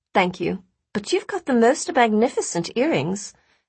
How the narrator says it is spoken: Astrid replied sweetly, rather amused by the woman's sudden about-face

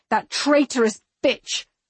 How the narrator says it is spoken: I snarl

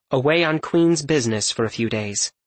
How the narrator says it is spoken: it said

